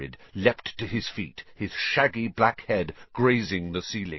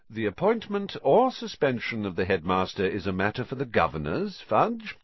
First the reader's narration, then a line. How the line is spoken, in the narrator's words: said Mr